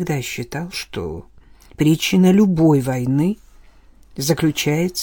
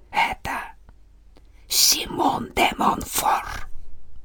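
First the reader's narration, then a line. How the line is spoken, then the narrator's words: Soldier whispering. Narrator (Russian): Солдат прошептал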